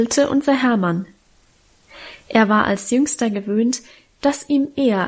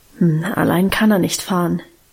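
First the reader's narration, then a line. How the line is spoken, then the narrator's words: Murmured. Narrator (German): murmelte sie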